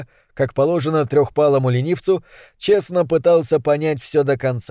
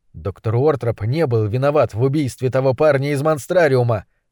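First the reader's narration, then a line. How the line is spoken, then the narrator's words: Plain. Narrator (Russian): сказал я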